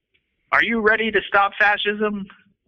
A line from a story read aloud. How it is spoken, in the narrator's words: shouted